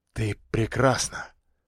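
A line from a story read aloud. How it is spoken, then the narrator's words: Whispered in ear. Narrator (Russian): прошептал ей на ухо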